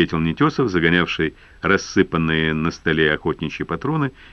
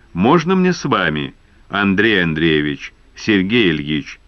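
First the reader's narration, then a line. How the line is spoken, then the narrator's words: Plain. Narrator (Russian): сказал Пушили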